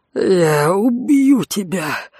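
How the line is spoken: Hiss. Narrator (Russian): прошипел Конт

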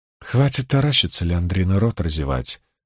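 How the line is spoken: Woman speaking calmly. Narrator (Russian): спокойно произнесла сидевшая женщина

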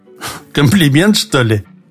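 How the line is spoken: Short laugh. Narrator (Russian): хохотнул он

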